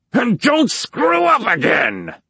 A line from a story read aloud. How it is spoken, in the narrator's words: Hobie screamed